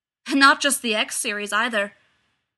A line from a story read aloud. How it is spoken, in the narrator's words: called Dan Mole from above, his voice as hard as Alec's